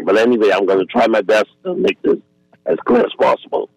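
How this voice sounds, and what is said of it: Hoarse, strained voice. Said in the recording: “Pardon my voice because I just lost it this morning.”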